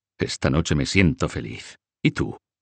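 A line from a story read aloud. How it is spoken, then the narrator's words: Murmuring. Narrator (Spanish): murmuró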